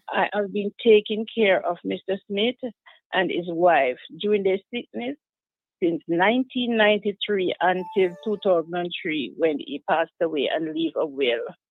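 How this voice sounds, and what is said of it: Jamaican accent. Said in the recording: “based on your accent. You're from Jamaica.”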